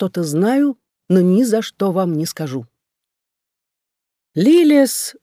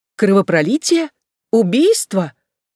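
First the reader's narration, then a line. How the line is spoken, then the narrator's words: Frightened exclamation. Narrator (Russian): воскликнула леди Авенель с испугом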